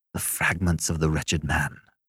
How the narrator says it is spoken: whispered Beverly

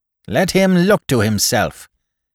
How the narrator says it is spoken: jeered one leader writer

